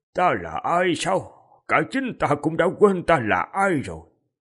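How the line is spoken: Old man sighing. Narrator (Vietnamese): Lão giả thở dài một tiếng

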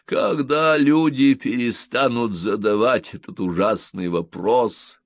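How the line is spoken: Moaning. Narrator (Russian): простонал он

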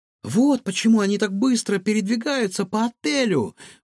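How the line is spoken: Exclaim. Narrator (Russian): воскликнул Егор

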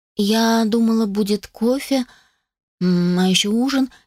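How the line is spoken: Uncertain. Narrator (Russian): неуверенно сказала

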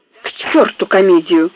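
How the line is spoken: Grumbling. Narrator (Russian): проворчал Барроу

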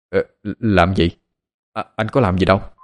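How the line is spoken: Stammering. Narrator (Vietnamese): Hắn lắp bắp

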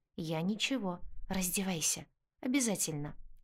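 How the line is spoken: Calm. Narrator (Russian): спокойно отвечает он

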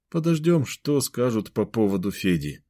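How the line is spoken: Dejected voice. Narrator (Russian): упавшим голосом проговорил Кирилл

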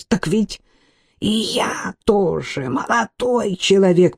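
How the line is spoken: Wheeze. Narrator (Russian): просипел

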